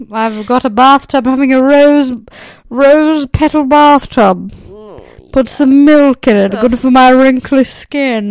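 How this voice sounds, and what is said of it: Posh elderly woman voice. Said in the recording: “You sound like a 90-year-old woman ... that's who the most, like, posh women are”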